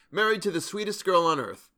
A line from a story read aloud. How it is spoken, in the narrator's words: continued, smiling happily